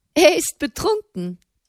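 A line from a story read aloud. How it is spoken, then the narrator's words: Woman's voice giggling behind. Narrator (German): kicherte eine Frauenstimme hinter ihm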